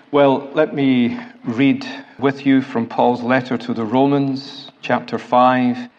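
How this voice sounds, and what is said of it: Scottish accent. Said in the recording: “my semi-mellifluous Scottish accent”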